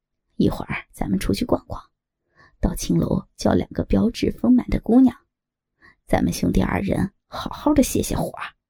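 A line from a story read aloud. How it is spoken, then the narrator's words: Panting, low voice. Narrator (Chinese): 尤巴喘着粗气，低声道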